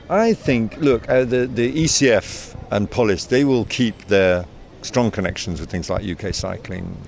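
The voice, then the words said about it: British accent. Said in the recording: “as you can tell by my accent, I'm of British origin myself”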